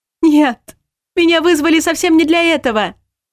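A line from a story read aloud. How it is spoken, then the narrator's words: Screamed. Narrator (Russian): завопила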